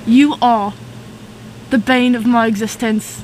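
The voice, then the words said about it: Put-on British accent. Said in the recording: “Is that your British accent? That's your Anthony accent?”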